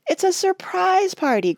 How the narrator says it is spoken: cried Margaret, red-faced from joyful suspense

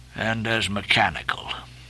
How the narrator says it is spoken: muttered Ahab

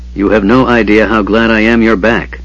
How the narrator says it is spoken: the knight said, his voice husky

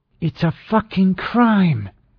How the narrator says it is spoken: she said through her teeth

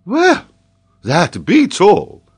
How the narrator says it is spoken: exclaimed Paganel

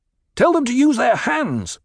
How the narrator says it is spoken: Paul barked

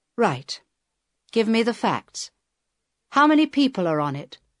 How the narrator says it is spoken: Inspector Holm answered

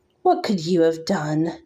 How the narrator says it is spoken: Nesta sneered

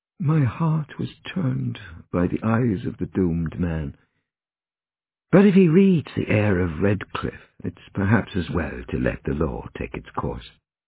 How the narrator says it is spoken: Oscar murmured to the prison governor

